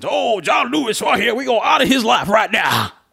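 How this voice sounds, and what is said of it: Mocking put-on southern accent. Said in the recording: “here comes a southern accent.”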